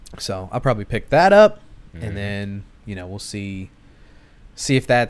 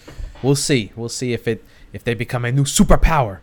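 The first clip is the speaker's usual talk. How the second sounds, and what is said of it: Questionable Ken Watanabe accent impression. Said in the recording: “like Ken Watanabe would say... I don't know if you can do that accent... Maybe that was bad... It was Ken Watanabe, not me just doing some random Asian accent... Questionable at best.”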